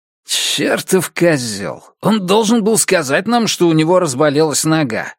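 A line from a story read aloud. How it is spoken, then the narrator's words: Growling. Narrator (Russian): прорычал Барклей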